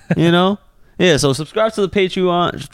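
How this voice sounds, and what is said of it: Chinese accent slipping into speech. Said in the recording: “my Chinese accent be coming out of nowhere”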